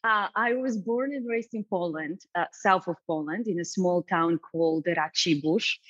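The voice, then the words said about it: Slight Polish accent. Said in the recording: “I hear a little accent. ... just a little.”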